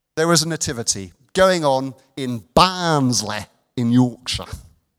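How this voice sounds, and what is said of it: Put-on Yorkshire accent. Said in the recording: “Excuse my Yorkshire accent. ... He's been practicing.”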